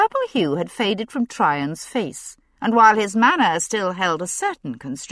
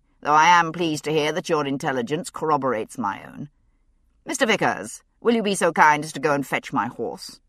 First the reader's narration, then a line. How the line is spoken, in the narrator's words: he said dryly